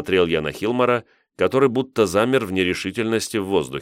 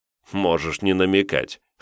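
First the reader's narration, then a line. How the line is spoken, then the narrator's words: Snort. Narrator (Russian): хмыкнул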